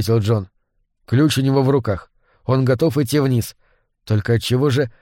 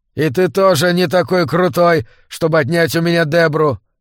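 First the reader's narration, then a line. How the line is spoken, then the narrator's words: Shouting. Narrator (Russian): он выкрикнул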